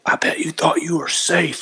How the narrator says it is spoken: He's like whispered to me

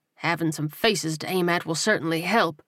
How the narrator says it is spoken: he murmured

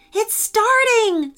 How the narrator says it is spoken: said Jane excitedly

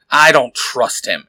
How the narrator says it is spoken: Eric says, growling

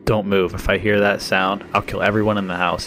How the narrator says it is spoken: he said

